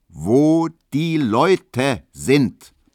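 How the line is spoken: Very loud bellow. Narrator (German): brüllte Herr Löwenberg, dass man es bis schmarkender hören konnte

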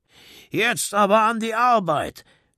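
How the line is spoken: Rough voice calling out. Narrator (German): rief eine raue Stimme

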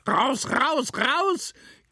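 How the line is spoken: Shriek. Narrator (German): kreischte Mephisto

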